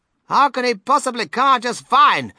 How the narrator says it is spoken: snapped Mrs

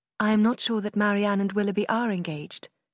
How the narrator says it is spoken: Eleanor replied quickly

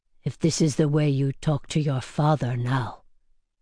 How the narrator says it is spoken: said gravely

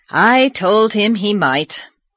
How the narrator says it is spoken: said Marilla wearily

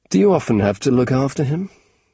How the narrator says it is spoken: he asked

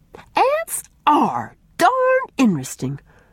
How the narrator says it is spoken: exclaimed Mary, glad to escape the shadowy piper's thrall

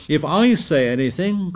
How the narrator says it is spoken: cried Piggy with bitter realism

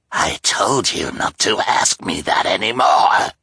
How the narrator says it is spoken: replied Olaf with a snarl

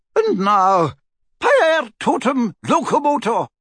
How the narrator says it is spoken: cried Professor McGonagall

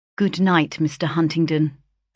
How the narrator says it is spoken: said coldly

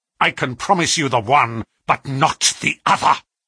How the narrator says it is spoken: he snarled

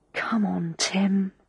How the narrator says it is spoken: I said under my breath

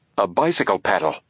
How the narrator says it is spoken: he exclaimed

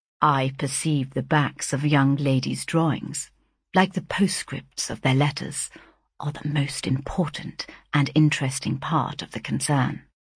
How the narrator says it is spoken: he quietly remarked

